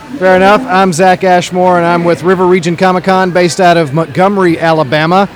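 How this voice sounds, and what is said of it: Worn-out, strained voice. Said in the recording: “my voice is nearly shot from talking”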